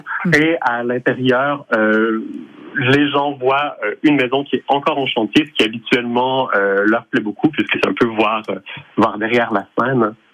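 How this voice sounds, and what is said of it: Quebec French accent. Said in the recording (French): “avec votre petit accent, ... si par hasard vous ne venez pas d'un petit peu plus loin. ... je suis Montréalais d'origine.”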